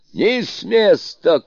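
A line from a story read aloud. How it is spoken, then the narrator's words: Shout. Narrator (Russian): крикнул Суню-кун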